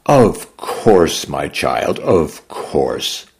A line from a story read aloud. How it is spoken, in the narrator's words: the rescuer replied